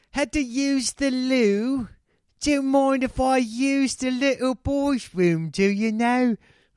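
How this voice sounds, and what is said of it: Put-on English accent. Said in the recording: “the English accent.”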